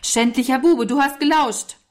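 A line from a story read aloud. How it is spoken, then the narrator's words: Called out. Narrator (German): rief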